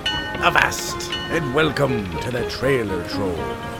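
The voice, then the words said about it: Terrible put-on pirate voice. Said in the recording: “It is time for me to do a terrible pirate voice.”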